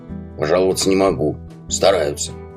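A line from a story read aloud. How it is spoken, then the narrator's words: Grumbled. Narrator (Russian): буркнул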